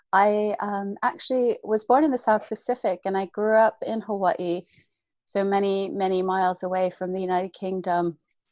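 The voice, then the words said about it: Non-British accent. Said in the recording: “you can probably tell from my accent that I'm not from this side of the pond”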